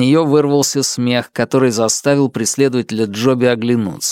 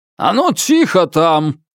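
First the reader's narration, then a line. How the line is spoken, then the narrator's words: Shout. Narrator (Russian): крикнул он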